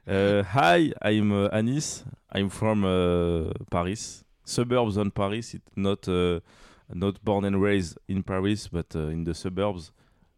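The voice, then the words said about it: Strong French accent in English. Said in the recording (French): “j'ai l'accent de ouf, par contre”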